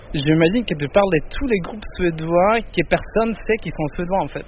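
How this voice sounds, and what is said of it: Swedish accent speaking French. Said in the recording (French): “Avec son plus bel accent”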